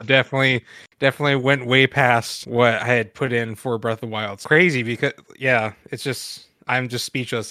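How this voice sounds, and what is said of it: Stuttering, halting speech. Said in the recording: “I'm stuttering.”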